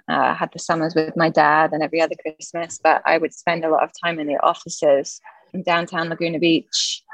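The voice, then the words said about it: British English accent. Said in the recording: “grew up in the UK, hence the accent.”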